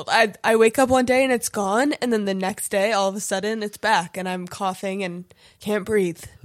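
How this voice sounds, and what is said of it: Rough, congested, old-sounding voice. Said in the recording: “I sound like an old man because of my cold.”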